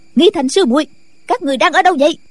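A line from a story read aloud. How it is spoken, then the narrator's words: Shout. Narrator (Vietnamese): Nghi quà lại quát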